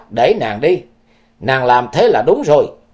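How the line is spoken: Sharp shout. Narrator (Vietnamese): Hành thi nữ quát

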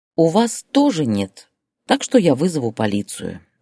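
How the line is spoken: Plain. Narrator (Russian): ответила она

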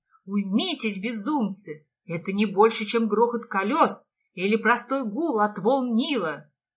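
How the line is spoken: Mayor shouting in vain. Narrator (Russian): напрасно кричал градоправитель

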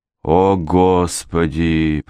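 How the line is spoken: Moaning. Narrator (Russian): простонала Мэри

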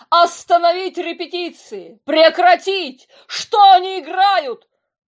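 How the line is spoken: Frantic shouting. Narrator (Russian): Господин Крэг кричал

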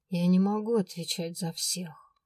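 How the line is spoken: Muffled, hollow voice. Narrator (Russian): глухо произнес он

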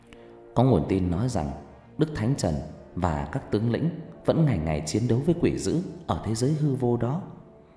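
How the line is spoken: Cold. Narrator (Vietnamese): lạnh lùng

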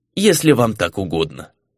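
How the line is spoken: Dry, curt. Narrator (Russian): сухо бросил Делерра

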